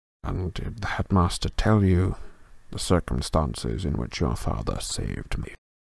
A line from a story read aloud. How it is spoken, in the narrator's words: He whispered